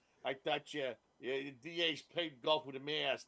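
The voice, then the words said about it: Imitated New York accent with lisp. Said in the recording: “He's got that New York accent. And then he has the lisp in there.”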